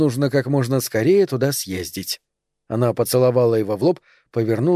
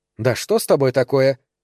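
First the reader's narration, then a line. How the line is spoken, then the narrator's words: Angry question. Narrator (Russian): спросила Тереза скорее сердито, чем заботливо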